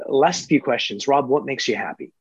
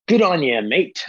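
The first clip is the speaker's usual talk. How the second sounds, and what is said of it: Bad put-on Australian accent. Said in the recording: “That's my bad Aussie accent.”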